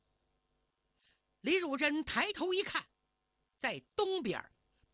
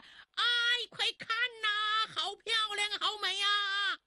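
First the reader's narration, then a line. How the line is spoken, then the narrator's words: Boatmen crying out in amazement. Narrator (Chinese): 船工们齐声惊叫起来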